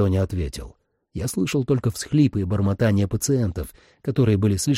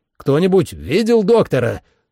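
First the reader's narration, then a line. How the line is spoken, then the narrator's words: Shout. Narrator (Russian): снова крикнул я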